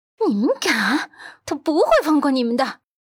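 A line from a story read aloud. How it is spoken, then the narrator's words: Through gritted teeth. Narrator (Chinese): 温子欣咬牙切齿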